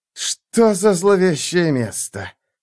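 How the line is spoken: Hiss. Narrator (Russian): прошипел новый голос

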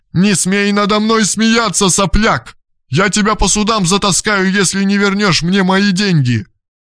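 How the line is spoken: Shouted. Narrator (Russian): закричала

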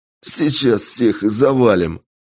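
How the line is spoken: Strained laugh under effort. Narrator (Russian): натужно хохотнул младший брат, пытаясь свалить очередного нападавшего

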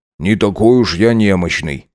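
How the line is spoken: Quiet grumble. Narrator (Russian): тихо проворчал Макс

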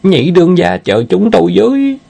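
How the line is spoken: Panicked cry. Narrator (Vietnamese): Kêu lên rồi giống như chó nhà có tang

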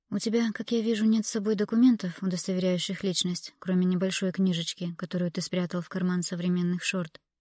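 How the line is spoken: Calm. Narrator (Russian): спокойно проговорила Эмилия

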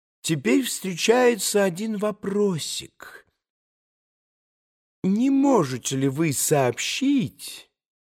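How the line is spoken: Extremely soft. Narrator (Russian): Чрезвычайно мягко начал Николай Парфенович

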